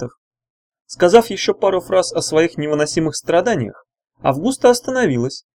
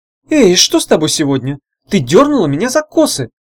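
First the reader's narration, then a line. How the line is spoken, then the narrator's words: Indignant girl's exclamation. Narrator (Russian): с возмущением воскликнула принцесса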